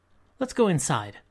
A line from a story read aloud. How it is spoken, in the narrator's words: Frankie said hastily